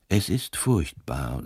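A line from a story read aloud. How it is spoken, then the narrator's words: Weak, tired voice. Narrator (German): sagte mit matter Stimme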